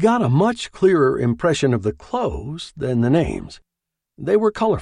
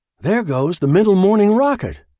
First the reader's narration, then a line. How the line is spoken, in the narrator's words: one of them eagerly cried